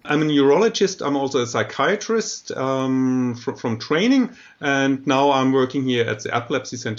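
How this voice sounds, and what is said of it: German accent in English. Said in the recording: “I'm German, you might hear it from the accent”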